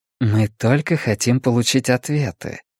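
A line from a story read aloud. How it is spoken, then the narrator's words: Soft, gentle. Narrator (Russian): мягко произнес Чанг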